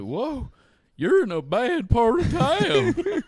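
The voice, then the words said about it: Cracked honky-tonk Southern voice impression. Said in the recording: “he had a stereotypical, like, honky-tonk voice. Even, like, cracked ... that's a great impression”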